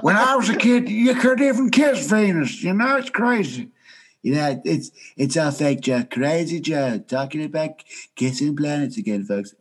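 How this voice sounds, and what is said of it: Bad Donald Trump impression. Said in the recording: “bad Trump impression”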